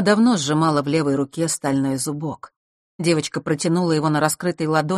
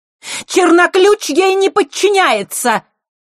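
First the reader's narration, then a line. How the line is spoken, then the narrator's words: Piercing shout. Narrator (Russian): пронзительно выкрикнула Елена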